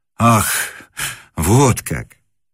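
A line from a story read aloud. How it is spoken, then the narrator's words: Surprised exhale. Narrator (Russian): выдохнул Муравьев, ожидавший, видимо, чего угодно, но только не встречи с поэтом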